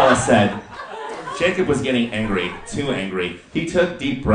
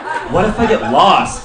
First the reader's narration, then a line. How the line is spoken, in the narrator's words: Bella scoffed